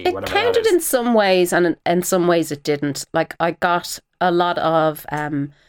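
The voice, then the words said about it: Authentic Irish accent. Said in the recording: “your accent because it's an actual Irish accent”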